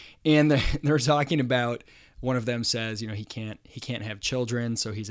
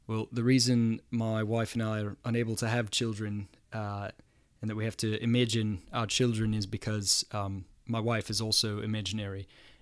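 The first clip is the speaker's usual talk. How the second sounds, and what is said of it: Put-on New Zealand accent. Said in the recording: “got to try to do my best New Zealand accent ... I'm going to try to do the accent. So if you're from New Zealand and I sound terrible”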